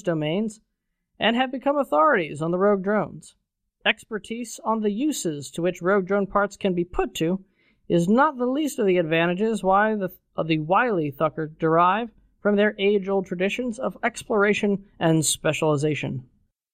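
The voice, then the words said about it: Formal newsreader narrator voice. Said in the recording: “the war correspondent thing you got going on there ... the official Eve news voice, the guy that does the CCP videos ... Your tone was on point. I just didn't recognize it due to the lack of the accent.”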